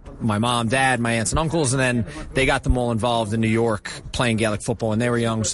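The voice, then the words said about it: New York accent. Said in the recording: “your lovely New York accent”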